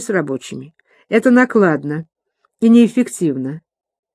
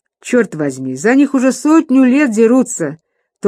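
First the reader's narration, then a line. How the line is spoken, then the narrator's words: Laughing. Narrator (Russian): тот рассмеялся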